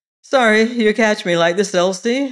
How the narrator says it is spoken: he said with a little laugh

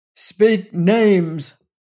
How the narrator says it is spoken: thundered Lassiter

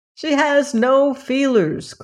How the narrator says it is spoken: cried another

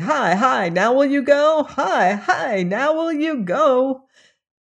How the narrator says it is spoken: jeered

